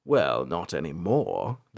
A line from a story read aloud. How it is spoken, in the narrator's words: the voice sneered